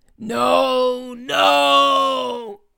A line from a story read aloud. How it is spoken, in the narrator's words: screamed the creature